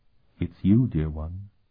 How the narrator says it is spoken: she said in a deadly quiet voice

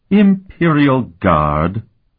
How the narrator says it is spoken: Sophronia sneered

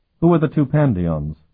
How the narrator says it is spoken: Colton asked nervously

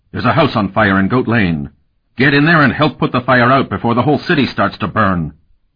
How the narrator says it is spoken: barked

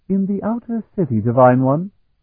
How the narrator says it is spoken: Bevier said softly

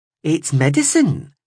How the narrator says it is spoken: sang out brightly

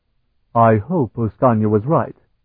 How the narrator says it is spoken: Tinian said

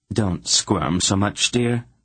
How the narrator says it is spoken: Aunt Paul told Geryon calmly

